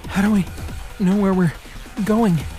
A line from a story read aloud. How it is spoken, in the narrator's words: Ebony asked, panting